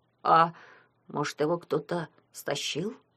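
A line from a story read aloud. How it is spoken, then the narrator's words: Timid suggestion. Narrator (Russian): робко предположил Митя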